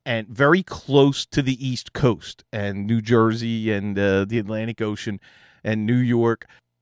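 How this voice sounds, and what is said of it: Philadelphia accent. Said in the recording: “I don't have that accent, but this is a Philadelphia accent ... Southwest Philadelphia”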